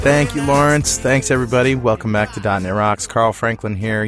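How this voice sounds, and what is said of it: Slightly hoarse, losing voice. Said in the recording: “Losing my voice a little, probably because I've been singing a lot lately”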